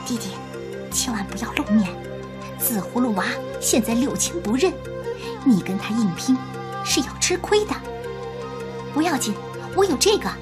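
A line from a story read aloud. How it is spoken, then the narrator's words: Soft urging. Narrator (Chinese): 千里眼娃轻声叮嘱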